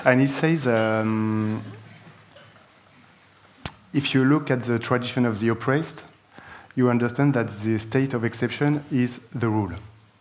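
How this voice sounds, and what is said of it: Non-native English accent. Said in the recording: “I'm sorry for my accent.”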